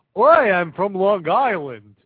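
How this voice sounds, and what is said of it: Put-on Jewish accent. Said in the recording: “This is a Jewish accent.”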